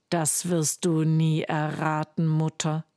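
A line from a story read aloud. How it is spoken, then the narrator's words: Plain. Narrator (German): sagt Hans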